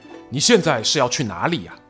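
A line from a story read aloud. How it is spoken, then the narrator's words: Cold, grave question. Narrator (Chinese): 他的大老婆严氏一脸凝重，冷冷地询问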